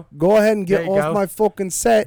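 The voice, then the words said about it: Poor fake British accent. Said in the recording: “That's a piss poor British accent”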